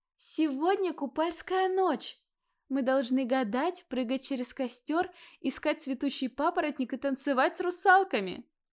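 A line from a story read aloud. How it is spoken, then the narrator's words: Laughing shout. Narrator (Russian): Смеясь, прокричала Алина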